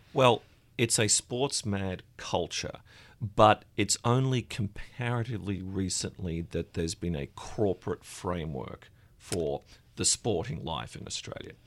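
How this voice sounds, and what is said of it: Australian accent. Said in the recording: “You're Australian. I believe your accent tips you off.”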